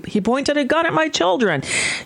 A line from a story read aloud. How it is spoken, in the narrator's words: you hear her screaming